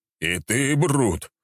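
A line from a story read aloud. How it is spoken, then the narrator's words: Exclamation. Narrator (Russian): воскликнул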